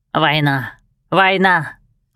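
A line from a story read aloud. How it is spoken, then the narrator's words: Hoarse croak. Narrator (Russian): хрипло каркает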